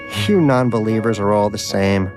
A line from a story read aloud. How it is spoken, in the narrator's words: scoffed Donut